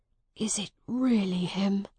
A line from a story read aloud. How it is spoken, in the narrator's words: whispered Miles to himself